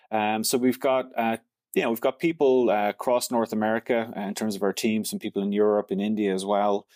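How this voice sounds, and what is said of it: Irish accent. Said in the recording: “that is not a French Montreal accent that you're sharing ... from Ireland?”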